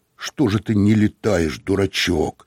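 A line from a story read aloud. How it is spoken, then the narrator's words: Angry. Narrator (Russian): сказал он сердито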